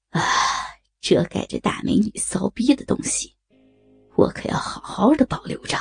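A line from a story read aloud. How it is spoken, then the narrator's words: Delighted murmur. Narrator (Chinese): 黑龙如获至宝的…喃喃道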